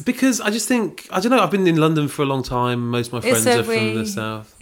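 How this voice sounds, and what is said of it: Posh southern English accent. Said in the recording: “You've made yourself talk posh. ... It's an engineered accent”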